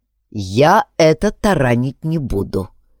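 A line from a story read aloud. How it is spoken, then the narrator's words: Clipped, firm. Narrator (Russian): отчеканил Алекс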